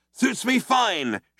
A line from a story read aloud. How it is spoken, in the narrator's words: shouted Zaphod back